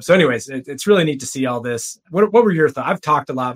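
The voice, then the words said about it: Scratchy voice. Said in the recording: “My voice is scratchy.”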